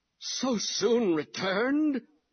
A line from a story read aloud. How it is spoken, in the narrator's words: old Dodson cries